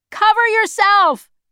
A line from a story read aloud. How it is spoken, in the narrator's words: Jonas shouted